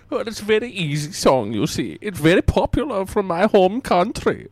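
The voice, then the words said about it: Very thick, weird put-on accent. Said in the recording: “it's probably my accent... You see, it's very thick... Hence my weird accent.”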